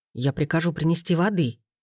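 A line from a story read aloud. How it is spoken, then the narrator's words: Emperor's mutter. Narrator (Russian): пробормотал император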